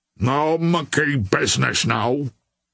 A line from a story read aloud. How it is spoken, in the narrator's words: growled the mucker in reply